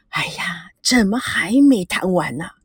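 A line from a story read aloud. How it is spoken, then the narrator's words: Anxious sighing. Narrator (Chinese): 一脸着急，长吁短叹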